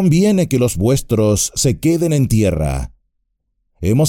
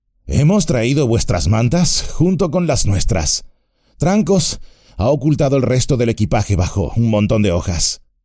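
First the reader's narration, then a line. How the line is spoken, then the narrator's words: Panting. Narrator (Spanish): dijo Merry jadeando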